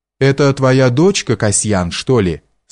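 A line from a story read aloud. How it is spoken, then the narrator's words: Plain question. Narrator (Russian): спросил я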